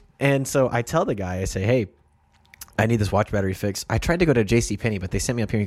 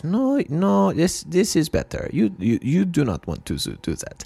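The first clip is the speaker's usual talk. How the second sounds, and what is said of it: Vague European accent. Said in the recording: “They were Swiss or German or some type of European. I couldn't pin down the accent.”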